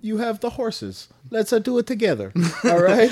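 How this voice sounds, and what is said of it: Poor attempt at Greek accent. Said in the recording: “Are you Italian? ... I don't have a good Greek accent.”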